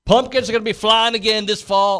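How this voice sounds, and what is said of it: Brief put-on unidentified accent. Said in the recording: “I don't know why I had an accent there. I don't know what kind of accent that was.”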